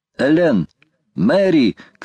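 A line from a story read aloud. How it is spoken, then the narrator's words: Shouted. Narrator (Russian): крикнул Гленнерван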